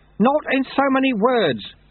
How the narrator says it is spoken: shouted Lutse

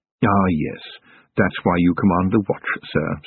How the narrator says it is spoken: said Willikins

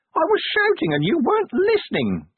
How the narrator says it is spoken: the imp whined

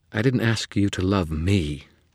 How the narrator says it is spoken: Leah said, her tone offended

